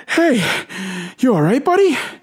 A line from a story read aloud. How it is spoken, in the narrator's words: he says between wheezes